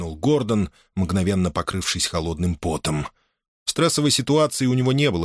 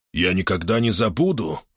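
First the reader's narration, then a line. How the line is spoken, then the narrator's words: Irritated reply. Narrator (Russian): раздраженно ответил Хел Беррелл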